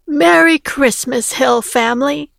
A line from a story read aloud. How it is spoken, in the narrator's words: exclaimed